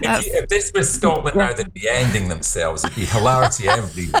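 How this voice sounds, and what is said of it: Usual voice. Nothing is said of it.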